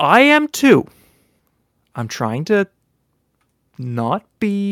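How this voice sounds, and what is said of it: Usual voice. Nothing is said of it.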